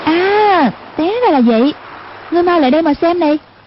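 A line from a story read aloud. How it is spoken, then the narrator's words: Sudden exclamation. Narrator (Vietnamese): Hoàng Dung đột nhiên kêu lên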